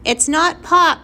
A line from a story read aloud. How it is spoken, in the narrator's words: Flora shouted back